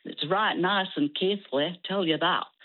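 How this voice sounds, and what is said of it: Put-on Yorkshire accent. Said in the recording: “a primary teacher in Keighley in Yorkshire ... I had to learn to speak like that”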